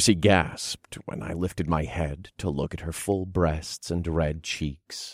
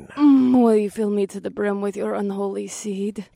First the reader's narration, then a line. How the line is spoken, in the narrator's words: She begged